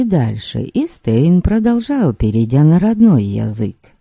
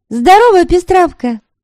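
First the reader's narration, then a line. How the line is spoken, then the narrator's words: Called out in Slavic. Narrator (Russian): по-славянски окрикнула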